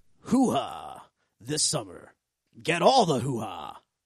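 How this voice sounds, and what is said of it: Movie trailer announcer voice. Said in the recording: “talking in my movie announcer voice”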